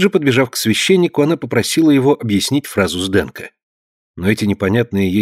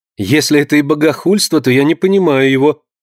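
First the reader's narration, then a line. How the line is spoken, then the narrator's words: Laughing reply. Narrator (Russian): смеясь, ответила Амалия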